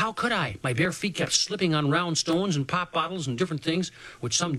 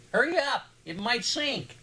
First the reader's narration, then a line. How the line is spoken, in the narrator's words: Poetry yelled at me